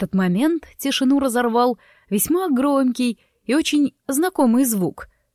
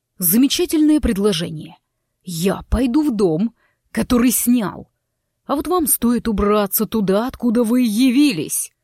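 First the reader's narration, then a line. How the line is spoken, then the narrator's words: Growl. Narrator (Russian): Прорычал он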